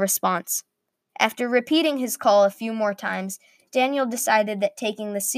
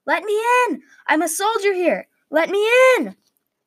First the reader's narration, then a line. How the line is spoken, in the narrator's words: From outside the castle walls, Daniel heard the call